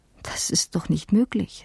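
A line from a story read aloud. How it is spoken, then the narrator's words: Stammering. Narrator (German): stammelte ich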